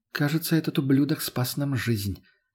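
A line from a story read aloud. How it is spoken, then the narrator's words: Quiet. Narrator (Russian): тихо сказала Лена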